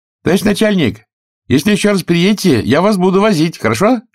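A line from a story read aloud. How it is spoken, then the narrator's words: Distant shout. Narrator (Russian): крикнул с берега Паша Горобец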